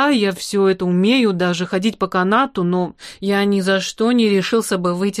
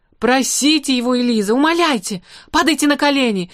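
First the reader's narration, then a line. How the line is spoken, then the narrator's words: Agitated shouting. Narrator (Russian): закричал взбудораженный Ной Ноевич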